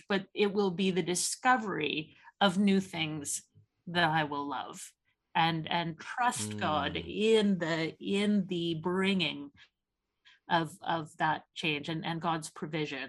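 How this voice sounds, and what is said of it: Canadian accent. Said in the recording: “by your accent, I can tell you are not from Oxford ... I'm Canadian”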